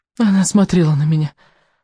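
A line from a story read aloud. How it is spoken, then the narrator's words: Sighing. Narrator (Russian): вздохнул рыбьенок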